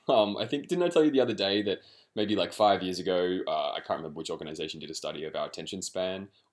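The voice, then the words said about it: Australian accent. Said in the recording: “Obviously, I'm Australian, if you can't detect my accent.”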